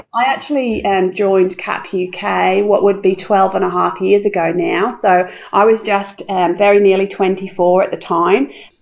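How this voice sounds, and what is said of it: Non-Australian accent. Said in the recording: “you'll tell from my accent that I'm not Australian by birth”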